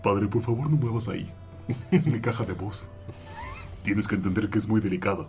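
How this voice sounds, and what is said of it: Deep radio announcer voice. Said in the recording (Spanish): “tiene voz de locutor este cabrón”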